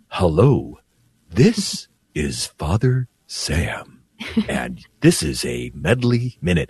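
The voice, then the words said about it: Imitates another person, talking very slowly. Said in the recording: “I think I'm going to try to imitate him ... why are you talking so slow? ... It was kind of creepy how slow you were talking”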